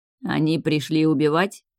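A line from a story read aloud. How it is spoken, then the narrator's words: Cold clarifying question. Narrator (Russian): холодно уточнил наурянец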